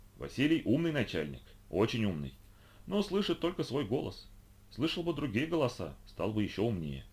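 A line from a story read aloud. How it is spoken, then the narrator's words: Calm old man. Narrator (Russian): дед спокойно говорит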